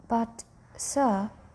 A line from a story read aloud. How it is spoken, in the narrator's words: stammered the keeper